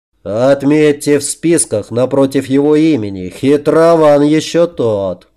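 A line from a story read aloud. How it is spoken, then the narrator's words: Deep bass voice. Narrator (Russian): пробасил великан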